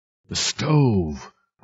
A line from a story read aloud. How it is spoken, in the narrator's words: cried Professor Keene